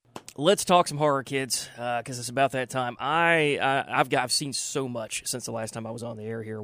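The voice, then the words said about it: Strained, fading voice. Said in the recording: “I'm kind of losing my voice here”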